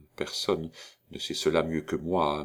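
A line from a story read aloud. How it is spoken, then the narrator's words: Young man murmuring. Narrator (French): murmura le jeune notaire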